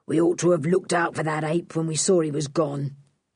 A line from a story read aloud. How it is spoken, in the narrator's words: growled Dan